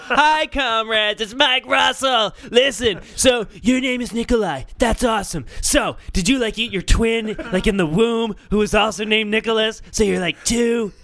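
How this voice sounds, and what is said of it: Imitates another person's voice. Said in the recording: “my Mike impression”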